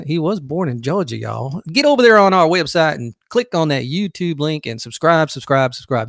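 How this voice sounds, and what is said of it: Bad put-on Southern accent. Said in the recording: “Woody has a southern accent? ... That is a horrible southern accent”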